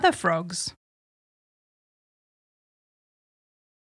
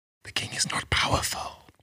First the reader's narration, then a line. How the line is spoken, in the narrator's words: whispered other frogs